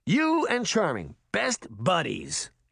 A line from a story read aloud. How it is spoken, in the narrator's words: Henry scoffed